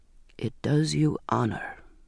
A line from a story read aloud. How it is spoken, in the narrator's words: he said very quietly